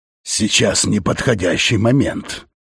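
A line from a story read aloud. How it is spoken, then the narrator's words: Angry grunt. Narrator (Russian): сердито буркнул Фаш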